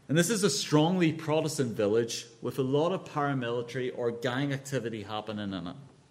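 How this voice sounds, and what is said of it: Northern Irish accent. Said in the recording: “you might guess from my accent, this is Northern Ireland”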